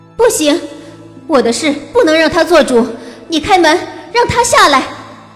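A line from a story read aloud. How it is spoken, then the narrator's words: Angry, loud. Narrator (Chinese): 我气恨交加，大声道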